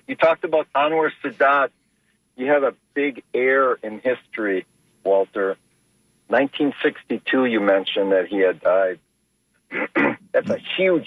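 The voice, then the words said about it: Slightly hoarse voice. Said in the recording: “I might be a little hoarse. I was up till 4 o'clock at a Halloween party.”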